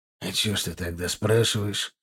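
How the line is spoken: Husky question. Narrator (Russian): хрипловато спросил

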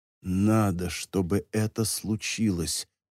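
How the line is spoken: Whispered. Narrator (Russian): прошептал

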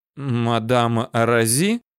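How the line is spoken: Barely forced out. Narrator (Russian): Еле выдавил из себя Пехов

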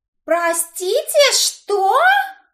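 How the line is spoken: Indignant exclamation. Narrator (Russian): Возмущенно воскликнула Имаджин

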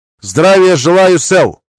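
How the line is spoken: Barked shout. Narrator (Russian): гаркнул я

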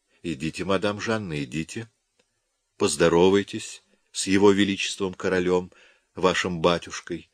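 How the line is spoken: Whisper. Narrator (Russian): шепнула она

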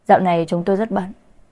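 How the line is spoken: Cool thin smile. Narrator (Vietnamese): Kiều Mạn cười nhạt đáp

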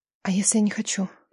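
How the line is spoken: Faint breathy whisper. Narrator (Russian): Ее шепот был едва слышен между вздохами

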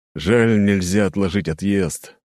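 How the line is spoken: Sigh. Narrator (Russian): вздохнул он наконец

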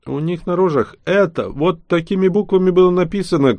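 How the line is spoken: Short laugh. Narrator (Russian): коротко рассмеялся шаман

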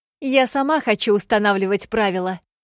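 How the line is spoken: Ardent girl's exclamation. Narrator (Russian): с жаром воскликнула девчонка

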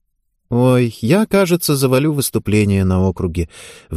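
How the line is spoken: Sad girl gymnast. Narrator (Russian): вдруг грустно поделилась своими мыслями одна из гимнасток

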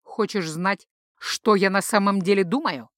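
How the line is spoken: Words through teeth. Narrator (Russian): процедил старший протектор

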